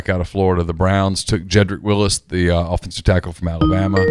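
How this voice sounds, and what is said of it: Usual voice. Nothing is said of it.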